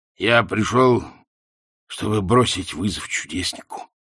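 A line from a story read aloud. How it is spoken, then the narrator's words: Hoarse wheeze. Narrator (Russian): прохрипел Ринсвинд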